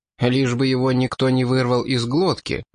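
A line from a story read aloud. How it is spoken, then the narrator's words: Snide remark. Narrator (Russian): ехидно заметил Сатан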